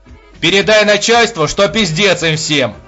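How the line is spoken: Shout. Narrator (Russian): крикнул он

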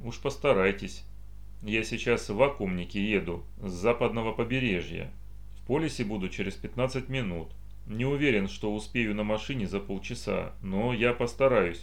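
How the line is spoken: Dry repetition. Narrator (Russian): повторил Макс сухо

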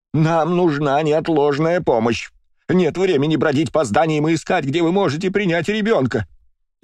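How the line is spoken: Screaming. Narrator (Russian): завопила посетительница

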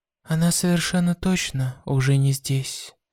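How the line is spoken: Whisper. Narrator (Russian): прошептал

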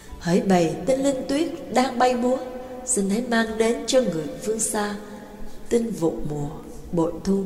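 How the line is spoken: Soft singing. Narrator (Vietnamese): Mã Cát nhẹ nhàng cất tiếng hát

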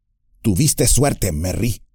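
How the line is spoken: Quiet voice after silence. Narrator (Spanish): dijo Pippin en voz baja, al cabo de un silencio

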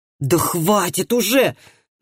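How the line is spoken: Exasperated exclamation. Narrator (Russian): воскликнул Андреас, которому до смерти надоел этот ретивый служака

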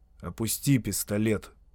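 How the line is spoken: Quiet. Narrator (Russian): негромко добавил Шарп

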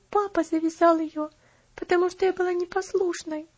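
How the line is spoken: Child sobbing. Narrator (Russian): ответила девочка, не сумев сдержать всхлипывание

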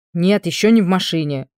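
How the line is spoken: Sudden angry snap. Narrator (Russian): вдруг зло бросил муж

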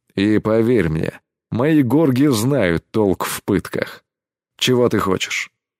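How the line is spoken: Muffled question. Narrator (Russian): глухо спросил Кэс

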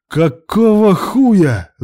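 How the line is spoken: Angry yell. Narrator (Russian): заорал Илья

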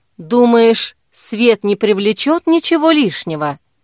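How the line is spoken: Quiet question. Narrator (Russian): негромко спросила Зои

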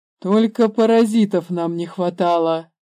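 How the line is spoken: Father sighing. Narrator (Russian): вздохнул отец

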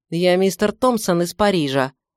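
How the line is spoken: Snapped. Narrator (Russian): огрызнулся

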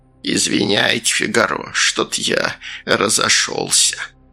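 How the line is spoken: Creaky voice. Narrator (Russian): Сальдо проскрипел

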